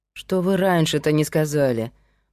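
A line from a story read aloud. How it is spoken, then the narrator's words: Grumbled. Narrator (Russian): проворчал Павел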